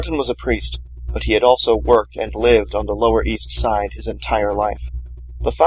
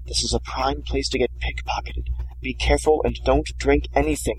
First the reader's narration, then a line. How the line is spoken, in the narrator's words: Martin whispered to Antonio